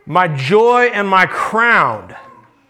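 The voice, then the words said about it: Proud, emphatic reading. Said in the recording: “You can hear the pride in his voice.”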